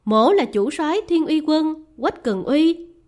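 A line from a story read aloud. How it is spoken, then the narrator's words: Man laughing. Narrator (Vietnamese): Người đàn ông kia bật cười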